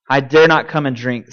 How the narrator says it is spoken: said Jill

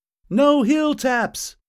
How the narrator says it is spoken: someone shouted

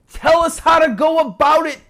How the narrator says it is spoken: the demons shouted

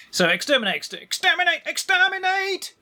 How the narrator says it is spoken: yelled Zeg

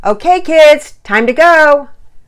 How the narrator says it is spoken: Daddy yell

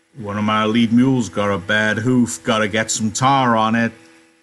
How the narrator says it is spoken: Slim said loudly

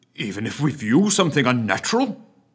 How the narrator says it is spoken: blurted the PM

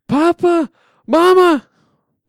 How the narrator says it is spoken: before I can scream loud enough

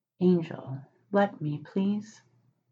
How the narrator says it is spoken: Crowley leaned in enough to say, quietly, right into Aziraphale's ear

